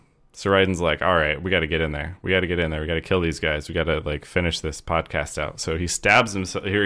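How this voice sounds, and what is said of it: Usual voice. Nothing is said of it.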